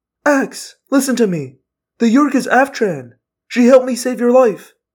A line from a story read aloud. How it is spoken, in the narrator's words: cried